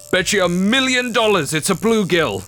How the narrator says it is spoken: Grandpa Hal reeled in his line and shouted

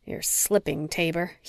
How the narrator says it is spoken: he muttered

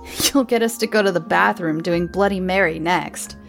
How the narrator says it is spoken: Paul scoffed

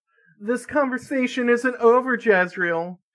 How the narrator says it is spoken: her mother yelled into the echoing hallways

